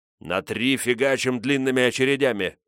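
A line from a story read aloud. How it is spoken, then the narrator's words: Growled. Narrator (Russian): прорычал я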